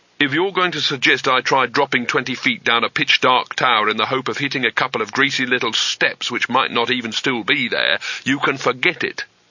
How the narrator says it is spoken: said Rincewind sharply

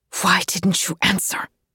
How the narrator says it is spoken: She hisses

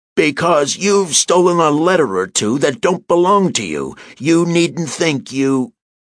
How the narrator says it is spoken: The old boy let his voice out another notch, bellowing

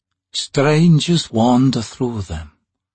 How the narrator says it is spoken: the figure said, in a thin, oddly accented voice

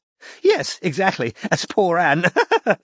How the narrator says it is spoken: said Cynthia, with another nervous, snorting laugh

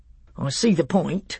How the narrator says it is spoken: said Trumpkin dryly

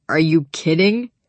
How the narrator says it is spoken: Connor tried to stifle a laugh

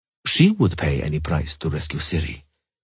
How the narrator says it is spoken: Emir said gravely

